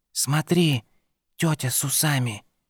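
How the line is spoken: Whispered. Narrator (Russian): шепнул Перри

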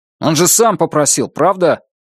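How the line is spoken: Sharp. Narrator (Russian): резко сказал Брезыч

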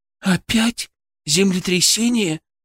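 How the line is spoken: Frightened question. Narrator (Russian): испуганно спросила Алена

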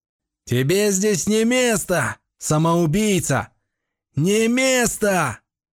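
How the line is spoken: Thunderous roar. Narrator (Russian): Голос взревел так, что дом чуть не развалился

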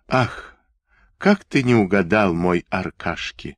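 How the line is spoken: Laughing. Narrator (Russian): засмеялась она

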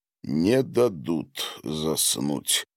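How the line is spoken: Mutter. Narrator (Russian): пробормотал он

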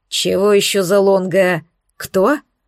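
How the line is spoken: Gloomy distrustful growl. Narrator (Russian): С хмурым недоверием прорычал он

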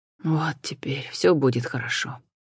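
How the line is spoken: Breathed out. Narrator (Russian): выдохнул он

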